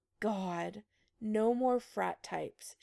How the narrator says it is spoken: she groaned

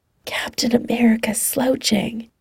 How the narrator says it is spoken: Clint whispers

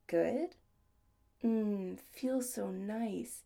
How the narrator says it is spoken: he murmured huskily

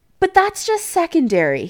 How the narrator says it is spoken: he added hastily

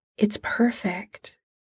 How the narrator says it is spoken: Molly says softly

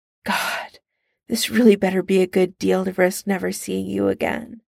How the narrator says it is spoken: Tony sighs

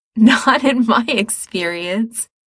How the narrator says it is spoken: he says through his giggles

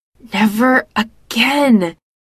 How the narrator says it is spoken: she hisses

